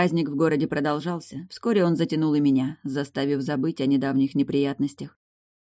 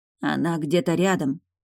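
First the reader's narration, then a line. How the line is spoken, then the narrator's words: Hoarse. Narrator (Russian): хрипло произнес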